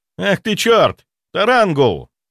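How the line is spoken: Shouted. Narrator (Russian): выкрикнул Афоня

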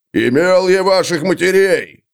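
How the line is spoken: Shouting. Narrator (Russian): прокричал Бьорни

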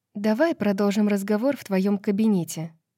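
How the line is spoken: Plain. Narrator (Russian): сказала она Джезибе

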